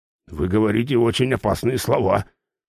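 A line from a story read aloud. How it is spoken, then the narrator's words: Grumbling. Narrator (Russian): проворчал охотник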